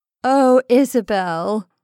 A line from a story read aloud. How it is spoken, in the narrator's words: moaned Maura